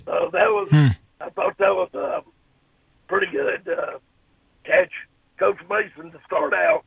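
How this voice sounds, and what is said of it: Voice sounds bad, unwell. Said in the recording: “I know my voice is terrible”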